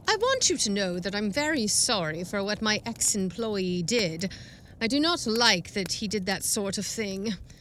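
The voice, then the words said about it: Weird British accent, stiff formal speech. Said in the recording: “he's got a weird accent. ... British. ... One of those weird accents.”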